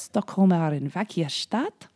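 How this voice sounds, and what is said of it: Put-on German accent. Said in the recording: “said with a German accent ... I just said a German accent”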